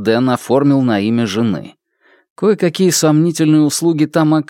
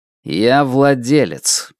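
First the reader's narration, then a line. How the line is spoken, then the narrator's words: Icy reply. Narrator (Russian): ледяным тоном ответил Хуа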